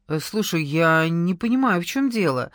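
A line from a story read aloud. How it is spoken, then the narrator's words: Uncertain smiling voice. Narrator (Russian): неуверенно улыбаясь, произнес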